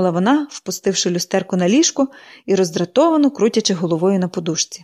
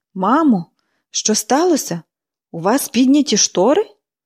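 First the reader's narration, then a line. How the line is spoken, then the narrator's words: Astonished exclamation. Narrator (Ukrainian): вигукнула Міллі, вражено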